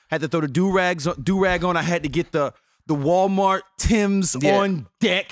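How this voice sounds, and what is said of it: Slight New York accent. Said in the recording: “I got a little bit of New York accent flavored in everything that I say right now”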